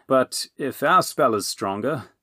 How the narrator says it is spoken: Dipple groaned

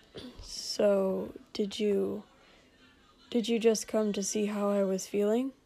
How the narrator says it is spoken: Shoto mumbled

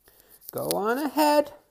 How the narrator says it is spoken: she wheezes

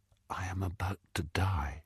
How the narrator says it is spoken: He whispered

